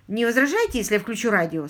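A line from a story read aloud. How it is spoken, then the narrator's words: Plain question. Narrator (Russian): спросил Ларри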